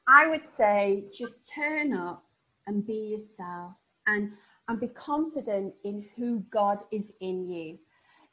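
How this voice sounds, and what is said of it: Northern English Sheffield accent. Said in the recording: “I come from Sheffield and people think that my northern accent's really novel”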